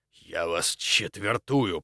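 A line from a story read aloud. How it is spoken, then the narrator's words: Angry hiss. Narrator (Russian): прошипел со злостью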